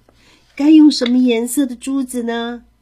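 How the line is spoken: Cheerful question. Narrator (Chinese): 爸爸笑呵呵的问

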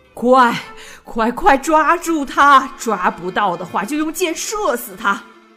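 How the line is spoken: Loud furious roar. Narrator (Chinese): 王爷挣扎着站起来，大声咆哮道

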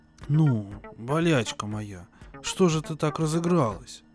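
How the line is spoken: Grumbling. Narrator (Russian): ворчала

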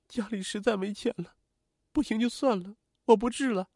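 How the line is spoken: Sobbing bitterly. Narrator (Chinese): 王海燕 失声痛哭道

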